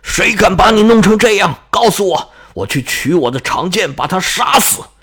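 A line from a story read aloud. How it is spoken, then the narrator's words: Giant roaring. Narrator (Chinese): 巨人吼道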